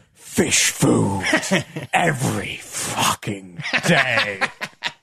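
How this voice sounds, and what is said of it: Deep Smaug dragon voice impression. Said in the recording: “do the voice of Smaug for any animals you see ... Just doing the voice of Smaug generally is quite fun.”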